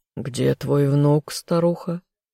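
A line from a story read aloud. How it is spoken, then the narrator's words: Rude, contemptuous question. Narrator (Russian): Смотря пренебрежительно на хозяйку дома, грубо спросил наместник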